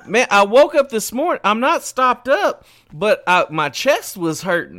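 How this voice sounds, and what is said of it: Nasal, congested-sounding voice. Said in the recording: “You got a cold or something? You sound a little nasally.”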